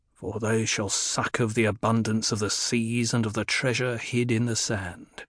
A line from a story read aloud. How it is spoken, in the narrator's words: Halleck murmured